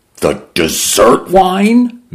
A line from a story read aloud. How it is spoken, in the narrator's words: Mendoza cried